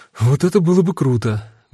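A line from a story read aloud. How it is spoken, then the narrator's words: Sighing. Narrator (Russian): вздохнула Дита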